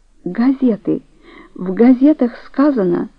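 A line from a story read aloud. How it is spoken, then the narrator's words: Stammering, barely audible. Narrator (Russian): Дора, заикаясь, едва слышно сказала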